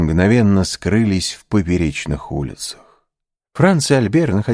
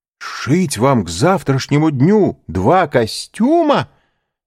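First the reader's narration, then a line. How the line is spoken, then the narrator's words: Exclaiming. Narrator (Russian): воскликнул он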